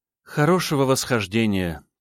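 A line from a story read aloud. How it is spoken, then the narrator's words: Sad, breaking long silence. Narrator (Russian): печально произнесла мне вслед Алуна, впервые за долгий период молчания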